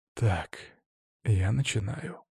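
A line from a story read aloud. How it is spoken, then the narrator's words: Whisper. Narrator (Russian): прошептал я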